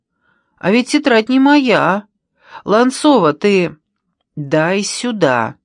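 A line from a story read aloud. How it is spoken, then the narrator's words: Shouted. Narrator (Russian): крикнула Ланцова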